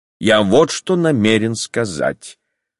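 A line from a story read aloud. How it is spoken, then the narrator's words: Cold and calm. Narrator (Russian): продолжал он холодно и спокойно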